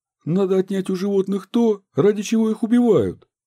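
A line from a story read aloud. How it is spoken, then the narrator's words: Exclaiming. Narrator (Russian): воскликнул Лев Христофорович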